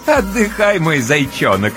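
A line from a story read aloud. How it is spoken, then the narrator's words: Playful chuckle. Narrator (Russian): С игривым хохотком разрешает Ночка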